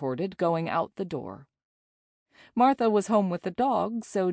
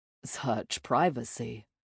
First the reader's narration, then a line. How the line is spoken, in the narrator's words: Jay mumbled